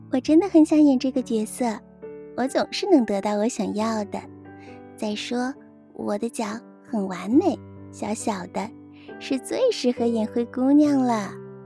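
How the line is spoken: Sweet, smiling. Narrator (Chinese): 罗拉露出甜美的笑容，对贝琳达说

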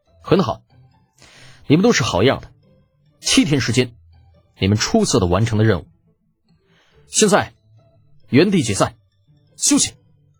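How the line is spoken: Deep serious tone. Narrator (Chinese): 李浩…沉声说道

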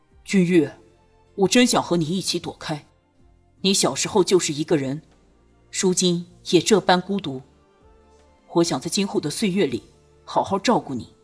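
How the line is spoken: Low wistful voice. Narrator (Chinese): 孟元敬想起此次一别再见无期，不禁低声道

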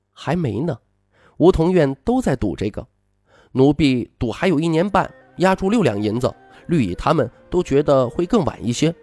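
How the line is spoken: Soft, gentle. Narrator (Chinese): 红薯柔声说

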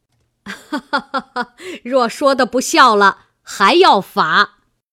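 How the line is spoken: Laughing speech. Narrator (Chinese): 贾母又笑道

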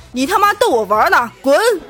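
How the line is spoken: Loud roar. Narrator (Chinese): 魔鬼大声的吼道

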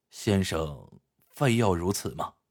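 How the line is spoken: Sighing question. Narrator (Chinese): 他叹了口气，问道

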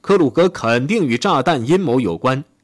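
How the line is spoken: Loud shouting. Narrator (Chinese): 希特勒大喊大叫说

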